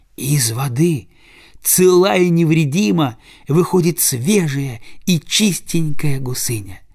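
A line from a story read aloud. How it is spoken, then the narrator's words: Joyful telling. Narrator (Russian): Радостно рассказывает она гусаку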